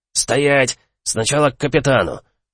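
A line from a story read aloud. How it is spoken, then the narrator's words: Sharp stern command. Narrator (Russian): Резко одернул меня пограничник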